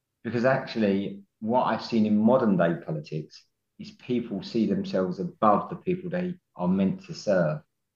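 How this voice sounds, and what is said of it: Blue-collar Estuary English accent. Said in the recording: “you can tell I've got the dialect of a blue-collar estuary man”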